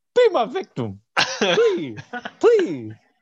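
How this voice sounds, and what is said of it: Imitates another person's voice. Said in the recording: “I think he would sound a little something like this ... My Ernie Hudson impression.”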